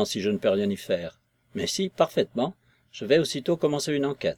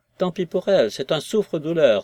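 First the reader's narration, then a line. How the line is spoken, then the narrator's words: Woman exclaiming offstage. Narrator (French): s'écria une voix de femme dans le salon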